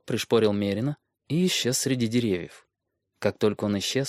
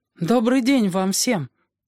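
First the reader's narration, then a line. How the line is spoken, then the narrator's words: Anxious voice. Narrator (Russian): проговорил Бран тревожным голосом, с первого взгляда заметив, что это не лесовики и не селяне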